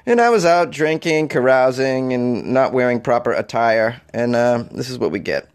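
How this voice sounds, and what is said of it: Voice sounds sick. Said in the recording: “got seriously ill, as you can hear in my voice probably”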